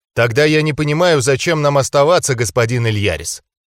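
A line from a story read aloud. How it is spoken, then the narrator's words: Dry speech. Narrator (Russian): сухо проговорил он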